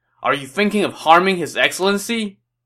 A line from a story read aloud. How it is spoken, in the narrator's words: shouted